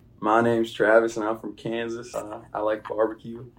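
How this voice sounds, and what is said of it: Put-on Southern American accent. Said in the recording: “can you switch accents? Can you give us an American accent? ... Southern was one of them, and you just kind of hit that on the mark”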